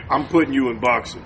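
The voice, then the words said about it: Deep voice imitating another person. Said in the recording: “My dad's voice... Is that how deep it is?... That's how deep his voice is.”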